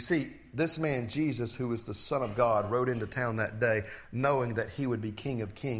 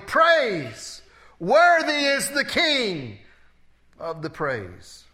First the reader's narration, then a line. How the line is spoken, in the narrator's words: They would be shouting